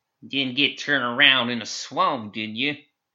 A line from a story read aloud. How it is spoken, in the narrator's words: She cackled high and grating